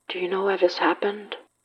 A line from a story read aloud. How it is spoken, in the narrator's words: Mikey asked, voice quavering